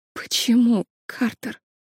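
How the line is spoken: Barely audible question. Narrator (Russian): еле слышно спросила Лили

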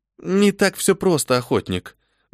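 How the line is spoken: Sighing. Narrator (Russian): вздохнула Милена

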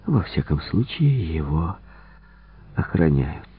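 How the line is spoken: Mumbled. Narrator (Russian): пробормотал он

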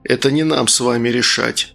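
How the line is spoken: Dry remark. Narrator (Russian): сухо заметил Логос

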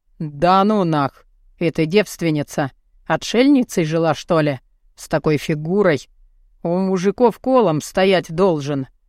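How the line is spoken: Grumbling, then sudden declaration. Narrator (Russian): Заворчал он и вдруг заявил

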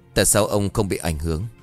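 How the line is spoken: Trembling question. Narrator (Vietnamese): hắn run rẩy hỏi

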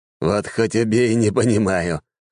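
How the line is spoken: Short laugh. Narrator (Russian): хохотнул Белмор

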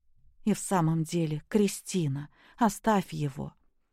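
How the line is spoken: Quiet request. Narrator (Russian): тихо попросила Наташа

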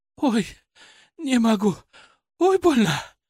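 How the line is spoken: Breathless exhale. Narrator (Russian): выдохнула

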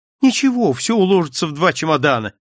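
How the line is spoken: Cheerful. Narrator (Russian): весело произнес я

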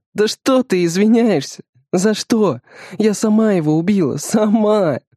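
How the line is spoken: Sobbing. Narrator (Russian): Всхлипывает

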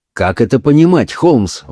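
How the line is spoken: Exclamation. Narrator (Russian): воскликнул я

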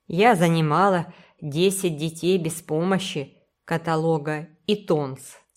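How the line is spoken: Stern declaration. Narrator (Russian): суровым тоном заявила миссис Линд

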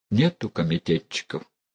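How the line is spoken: Low voice. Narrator (Russian): Санька вполголоса сказал

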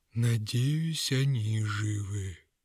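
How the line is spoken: Grim. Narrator (Russian): мрачно произнес мешок хитростей

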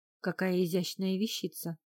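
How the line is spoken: Admiring mutter. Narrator (Russian): восхищенно пробормотал Берри

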